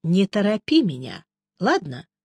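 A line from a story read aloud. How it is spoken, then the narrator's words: Unexpectedly gentle request. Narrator (Russian): неожиданно мягко попросил Джуффин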